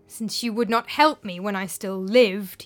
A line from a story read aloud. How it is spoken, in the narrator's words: he growled